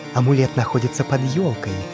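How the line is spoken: Whisper. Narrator (Russian): продолжал шептать первый голос

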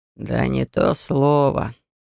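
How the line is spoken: Bewildered impressed mutter. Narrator (Russian): растерянно пробормотал хранитель, впечатлившись получившимся результатом

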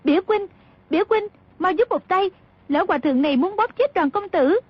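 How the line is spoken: Frightened urgent cry. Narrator (Vietnamese): Nàng lại càng kinh hãi, chỉ sợ Cư Ma Trí bóp chết Đoàn Dự, vội la lên

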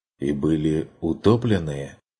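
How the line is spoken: Barely audible. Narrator (Russian): Чуть слышно уточнил Ланс

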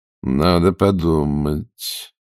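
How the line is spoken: Hesitant. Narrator (Russian): неуверенно сказал Ростовцев

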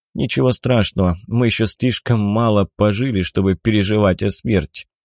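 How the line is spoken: Grim joke. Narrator (Russian): мрачно пошутил Семен

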